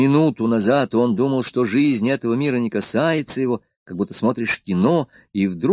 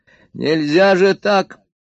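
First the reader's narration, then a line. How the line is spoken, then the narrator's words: Shouting. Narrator (Russian): закричал Егор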